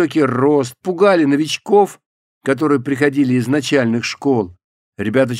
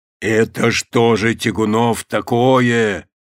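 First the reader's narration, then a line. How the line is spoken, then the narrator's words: Upset booming bass. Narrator (Russian): Расстроенным громыхающим басом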